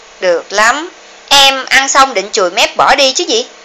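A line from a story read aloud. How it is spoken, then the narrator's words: Cold, mocking laugh. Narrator (Vietnamese): lạnh lùng, cười châm chọc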